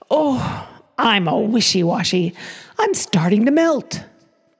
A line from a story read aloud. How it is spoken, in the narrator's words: Frosty exclaimed